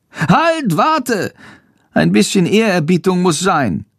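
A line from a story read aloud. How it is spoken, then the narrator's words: Called out. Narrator (German): ruft Schandor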